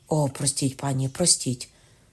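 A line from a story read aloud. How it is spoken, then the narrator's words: Hurried cry. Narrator (Ukrainian): скрикнув хапливо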